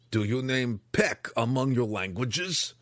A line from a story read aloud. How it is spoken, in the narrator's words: Belwar growled from the door